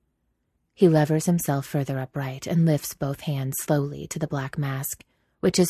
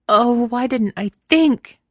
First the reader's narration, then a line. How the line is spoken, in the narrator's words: Franny cries, furious with herself